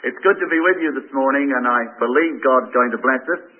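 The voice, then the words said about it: Southern accent. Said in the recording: “I love your accent... I'm a southerner that I've got such a good accent”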